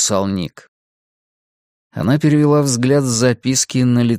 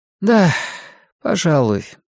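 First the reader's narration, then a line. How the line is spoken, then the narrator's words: Sighing. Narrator (Russian): матушка Абагейл снова вздохнула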